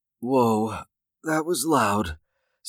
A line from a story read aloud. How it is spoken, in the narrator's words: Sarah said softly